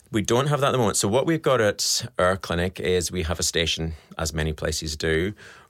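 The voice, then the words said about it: Scottish accent. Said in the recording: “you can tell by my accent, I'm Scottish”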